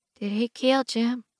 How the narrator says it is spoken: Ina asks quietly, barely loud enough to be heard over the rain

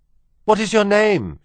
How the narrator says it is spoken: she shouted

